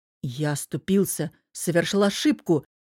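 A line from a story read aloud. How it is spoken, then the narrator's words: Patiently forced out. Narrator (Russian): терпеливо выдавил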